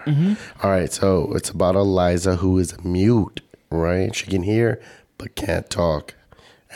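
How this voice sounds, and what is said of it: Damaged, rough-sounding voice. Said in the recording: “you can tell my voice is still fucked up”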